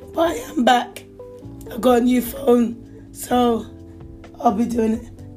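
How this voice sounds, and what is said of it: Hoarse, strained voice. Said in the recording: “being sick, losing your voice ... my voice is incorrect this morning”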